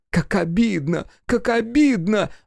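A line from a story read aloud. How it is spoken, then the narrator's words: Woman bursting into sobs. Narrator (Russian): разрыдалась она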